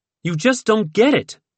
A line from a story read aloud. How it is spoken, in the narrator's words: she shouted